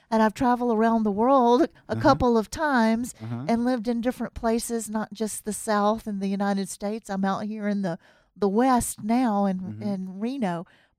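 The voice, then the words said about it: US Southern accent. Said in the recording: “my accent is a southern accent and a U.S. southern uh-huh. accent ... that southern accent will never go away.”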